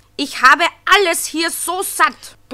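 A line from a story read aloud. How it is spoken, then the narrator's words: Angry roar. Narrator (German): brüllte Fridolin erbost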